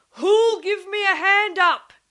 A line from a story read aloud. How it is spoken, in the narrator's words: he roared